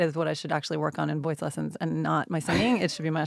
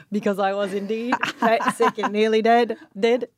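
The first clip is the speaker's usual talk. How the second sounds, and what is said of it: Poor put-on Australian accent. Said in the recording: “I'm really so bad at it ... my Australian accent because it's fucking terrible”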